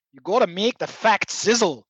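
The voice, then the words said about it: Imitated Scottish accent. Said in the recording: “a guy from Scotland, UK ... I'm not sure if I can actually repeat the accent”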